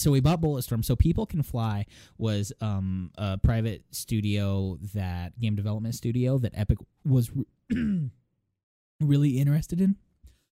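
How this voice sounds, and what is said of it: Strained, failing voice. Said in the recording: “I'm just coughing now. I'm losing my voice literally talking too much.”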